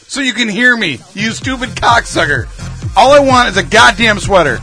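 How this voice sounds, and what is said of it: Yelling angrily. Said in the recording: “why are you yelling?”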